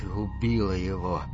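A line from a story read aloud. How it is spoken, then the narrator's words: Shocked whisper. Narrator (Russian): потрясенно прошептал Рики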